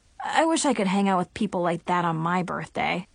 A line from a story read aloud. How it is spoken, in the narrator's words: sighed